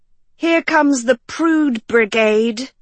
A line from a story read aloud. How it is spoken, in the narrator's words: Sophie groaned